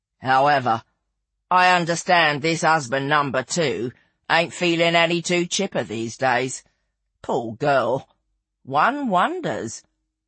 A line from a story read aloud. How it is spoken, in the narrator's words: Lizzie intoned, poker-faced